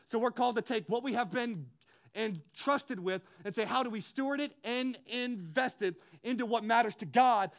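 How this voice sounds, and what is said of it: Loud, yelling, passionate preaching. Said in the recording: “I'm screaming, I'm yelling, I'm passionate”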